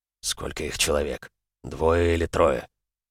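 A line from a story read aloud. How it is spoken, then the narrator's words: Whispered question. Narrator (Russian): также шепотом спросил Максут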